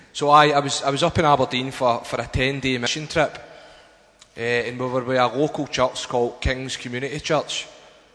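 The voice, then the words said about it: Scottish accent. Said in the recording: “my accent's probably got a wee bit stronger ... Missed the Scottish accent.”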